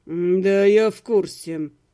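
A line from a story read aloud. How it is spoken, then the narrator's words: Through gritted teeth. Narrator (Russian): сквозь зубы сказал Лим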